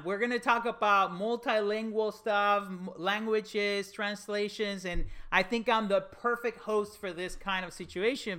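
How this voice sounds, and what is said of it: Spanish-accented English. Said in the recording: “I am Spanish as the first language, English as a second language ... I definitely have an accent”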